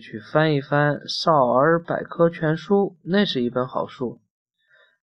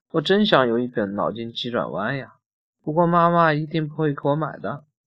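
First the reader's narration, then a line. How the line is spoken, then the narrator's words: Sighing, troubled. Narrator (Chinese): 阿瓜叹了一口气，苦恼地说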